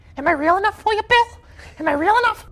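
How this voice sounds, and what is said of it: Pennywise clown voice impression. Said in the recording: “I can do a Pennywise impression ... people said it was spot on”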